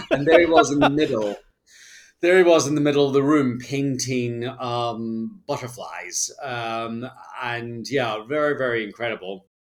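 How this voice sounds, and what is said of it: Scottish accent. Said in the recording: “I think I charmed him with my Scottish accent”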